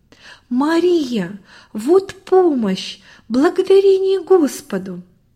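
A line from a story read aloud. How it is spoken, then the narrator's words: Joyful exclamation. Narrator (Russian): Добрый в порыве радости воскликнул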